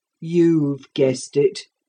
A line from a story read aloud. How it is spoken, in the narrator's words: said the captain gloomily